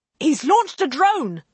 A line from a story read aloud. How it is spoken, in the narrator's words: the pilot shouted